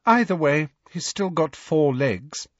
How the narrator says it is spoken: said Hermione coolly

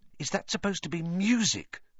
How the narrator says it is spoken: Ron whispered

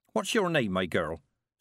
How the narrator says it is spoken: said Mistress Weatherwax

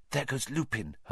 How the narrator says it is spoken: Hermione whispered

